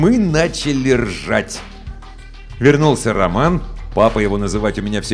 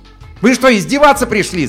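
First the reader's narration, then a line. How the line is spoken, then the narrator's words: Yelled. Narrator (Russian): заорал он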